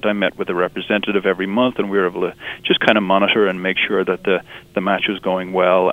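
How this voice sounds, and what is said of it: Irish accent. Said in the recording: “Do I detect a little bit of a British accent in your voice? ... It's Irish ... I'm originally from Ireland”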